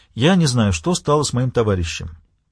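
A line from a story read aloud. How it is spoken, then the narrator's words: Plain. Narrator (Russian): ответил писатель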